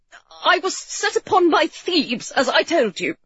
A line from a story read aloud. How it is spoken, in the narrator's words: he stammered finally